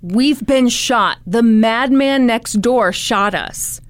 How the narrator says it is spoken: he yelled

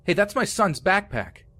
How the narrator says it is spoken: yelled

